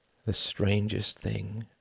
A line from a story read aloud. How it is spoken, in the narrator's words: murmured Sir Palairet